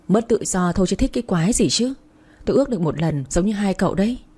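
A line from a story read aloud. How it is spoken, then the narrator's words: Sighing, annoyed. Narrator (Vietnamese): Quân thở dài nói giọng khó chịu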